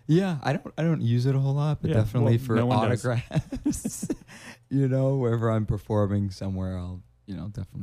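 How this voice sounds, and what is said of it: Brooklyn accent. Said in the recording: “There's that Brooklyn accent coming out”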